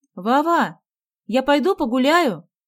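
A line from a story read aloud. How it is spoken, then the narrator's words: Shout. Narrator (Russian): крикнула Галя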